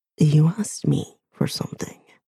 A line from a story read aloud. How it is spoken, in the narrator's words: he murmurs